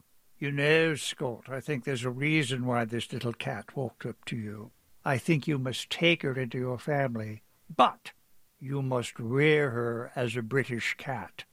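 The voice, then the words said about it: Put-on British accent. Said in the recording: “forgive the accent”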